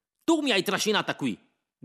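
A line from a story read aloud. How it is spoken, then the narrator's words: Shouting. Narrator (Italian): gridava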